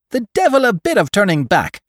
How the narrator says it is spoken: shrieked the market folk

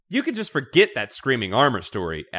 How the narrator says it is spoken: Abby snaps

